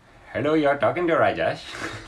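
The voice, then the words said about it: Put-on Indian accent. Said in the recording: “how is your Indian accent?”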